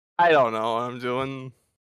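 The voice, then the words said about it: Imitates a comedic movie character voice. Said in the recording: “He's still speaking in the accent. ... Sound like Jim Carrey in The Mask there for a second.”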